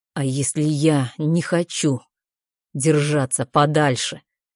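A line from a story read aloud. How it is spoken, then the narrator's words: Sudden near-whisper. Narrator (Russian): Его голос вдруг становится тихим, почти шепотом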